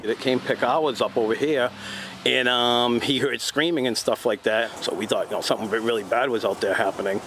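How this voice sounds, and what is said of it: New England accent. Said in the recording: “that's a shithead New England accent”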